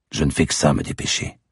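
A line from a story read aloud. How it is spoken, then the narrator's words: Muttered through teeth. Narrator (French): marmonnais-je entre mes dents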